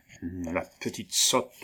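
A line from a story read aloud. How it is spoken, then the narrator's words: Provost's low grumble. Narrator (French): grommela tout bas le prévôt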